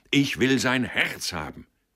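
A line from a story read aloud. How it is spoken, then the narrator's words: Roaring. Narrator (German): brüllte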